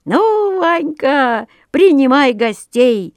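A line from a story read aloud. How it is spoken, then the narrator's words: Cheerful. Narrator (Russian): весело заговорил Петрушка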